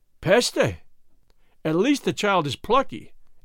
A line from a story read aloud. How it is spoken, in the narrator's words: exclaimed Monsieur Leblanc in French, astonished